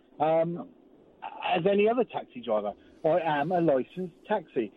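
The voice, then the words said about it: Brief West Country Hampshire accent. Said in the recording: “what happened to your accent then? ... You became a Wurzel for a word. ... occasionally the Hampshire in me comes out.”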